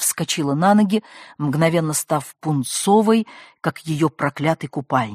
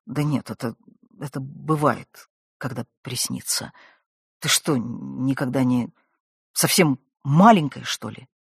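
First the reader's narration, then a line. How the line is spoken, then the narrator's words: Muttered. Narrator (Russian): Не глядя на нее, бормотнул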